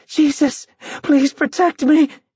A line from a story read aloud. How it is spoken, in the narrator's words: Once again she cried